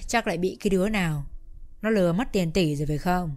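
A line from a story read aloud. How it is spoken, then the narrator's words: Sighing question. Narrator (Vietnamese): ông Tân chép miệng thở dài hỏi luôn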